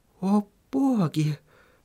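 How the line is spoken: Mumbling. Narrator (Russian): пробормотала Сахариса

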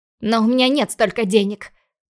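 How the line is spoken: Snarled. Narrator (Russian): Рыкнула я

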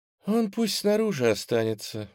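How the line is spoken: Melodic high-pitched voice. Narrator (Russian): мелодичным высоким голосом сказала лесовая

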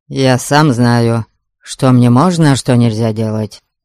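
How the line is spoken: Childish snapping retort. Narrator (Russian): Совсем по-детски огрызнулся Гарольд

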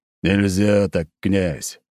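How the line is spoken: Grumbling reply. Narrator (Russian): проворчал в ответ Николай

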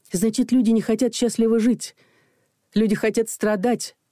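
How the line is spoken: Exclamation. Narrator (Russian): воскликнула Людмила

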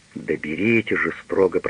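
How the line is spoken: Whispered. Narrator (Russian): прошептал Пагель

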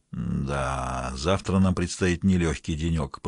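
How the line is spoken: Mumbling. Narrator (Russian): пробормотал завсегдатай

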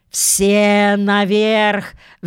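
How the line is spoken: Admiral roaring. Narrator (Russian): взревел адмирал

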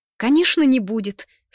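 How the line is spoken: Joyful child's exclamation. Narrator (Russian): снова радостно восклицает малявка

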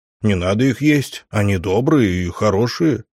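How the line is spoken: Very serious tone. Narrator (Russian): самым серьезным голосом сообщил я

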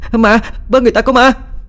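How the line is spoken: Screaming. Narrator (Vietnamese): Vừa hét

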